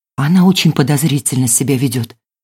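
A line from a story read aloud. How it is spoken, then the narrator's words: Whispered. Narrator (Russian): прошептала Маша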